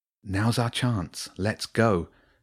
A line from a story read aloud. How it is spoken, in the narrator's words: whispered